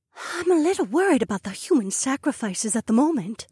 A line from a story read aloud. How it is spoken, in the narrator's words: Emma whispered back